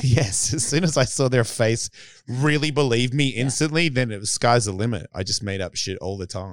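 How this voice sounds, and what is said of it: Australian accent. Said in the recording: “they loved my accent... The accent was killing... Australians”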